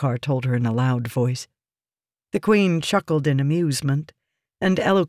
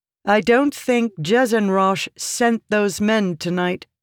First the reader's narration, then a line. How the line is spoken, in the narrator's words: Yasna said, too loudly